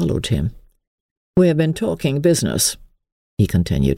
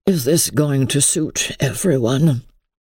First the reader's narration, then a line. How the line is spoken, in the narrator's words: said Henry, in a weary voice